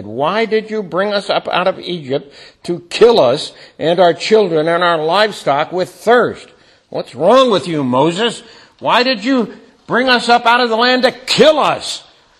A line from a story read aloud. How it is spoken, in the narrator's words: the people grumbled against Moses and said